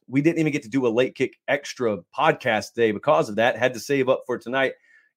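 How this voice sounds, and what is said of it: Hoarse, strained worn-out voice. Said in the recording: “my voice is shot ... I've probably got like 15 minutes of voice”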